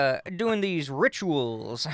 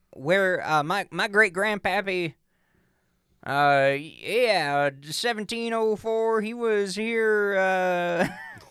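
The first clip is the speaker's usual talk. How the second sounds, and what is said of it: Put-on Southern accent. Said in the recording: “I like giving him a southern accent”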